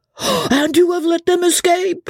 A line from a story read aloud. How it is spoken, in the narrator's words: shouts the captain furiously